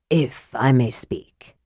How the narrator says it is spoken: he began in his soft, damaged voice

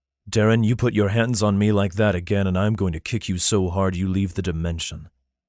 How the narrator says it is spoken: said in a flat tone

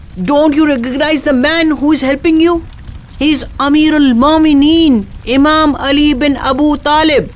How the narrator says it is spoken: she cried to the woman

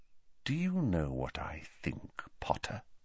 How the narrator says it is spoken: said Snape very quietly

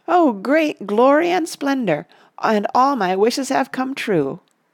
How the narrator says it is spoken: he laughed aloud for sheer delight, and he stood up and cried

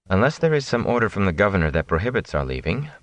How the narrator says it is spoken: Moraine said

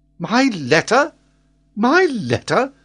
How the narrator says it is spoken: exclaimed Glenarvan

